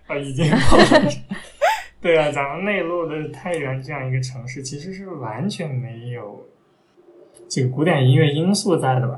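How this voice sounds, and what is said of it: Taiyuan regional Mandarin accent. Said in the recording (Chinese): “你这这个口音，我觉得已经暴露了。”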